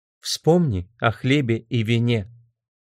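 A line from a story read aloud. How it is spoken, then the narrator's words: Calm. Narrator (Russian): спокойно сказала Энн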